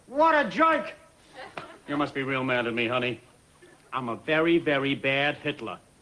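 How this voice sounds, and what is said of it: Thick New York accent, like Peter Griffin. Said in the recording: “in a thick New York accent ... sound like Peter Griffin ... they all sound like Peter Griffin ... It's a very good accent”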